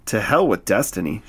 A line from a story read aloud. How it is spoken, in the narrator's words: she replied